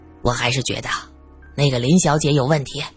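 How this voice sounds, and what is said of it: Quiet, hushed speaking voice. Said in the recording (Chinese): “小声说着”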